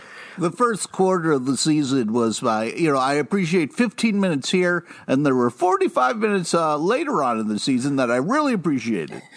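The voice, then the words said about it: Impression of another podcast host. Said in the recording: “that is an amazing impression of me. It is spot on”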